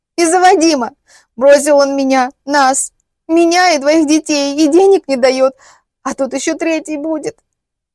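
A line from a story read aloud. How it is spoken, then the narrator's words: Sobbing inconsolably. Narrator (Russian): И я снова безутешно разрыдалась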